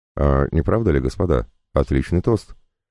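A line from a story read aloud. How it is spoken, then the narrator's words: Plain. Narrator (Russian): сказал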